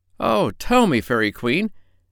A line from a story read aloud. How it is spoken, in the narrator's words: cried Bumpo, clasping his hands in joy